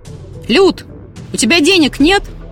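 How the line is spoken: Loud bark. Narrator (Russian): гаркнул

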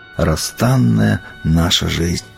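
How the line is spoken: Whispered to himself, sighing. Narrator (Russian): про себя прошептал со вздохом

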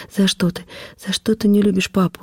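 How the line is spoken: Broken off by sobs. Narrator (Russian): рыдания не дали мне досказать

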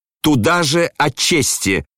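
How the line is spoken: Angry shout. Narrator (Russian): крикнул он злобно

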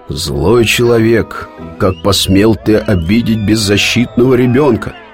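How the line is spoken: Menacing question. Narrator (Russian): грозно спросил судья

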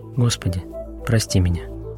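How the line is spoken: Quiet. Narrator (Russian): Тихо произнес

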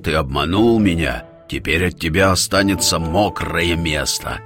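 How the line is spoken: Furious roar. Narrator (Russian): хозяин гор в ярости зарычал

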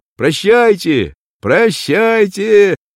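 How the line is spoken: Shouting. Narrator (Russian): кричал

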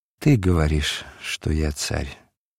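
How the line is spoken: Weary sigh. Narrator (Russian): назарянин устало вздохнул

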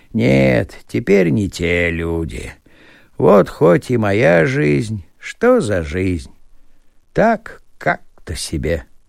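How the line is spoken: Continued with a sigh. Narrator (Russian): вздохнувши, продолжал

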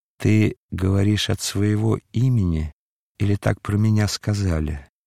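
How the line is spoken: Calm, enchantingly melodious voice. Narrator (Russian): голос, приятнее самой чарующей музыки, сказал спокойно

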